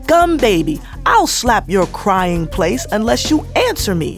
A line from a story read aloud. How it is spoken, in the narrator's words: shouted the fairy